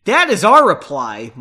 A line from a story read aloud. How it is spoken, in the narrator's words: retorted loudly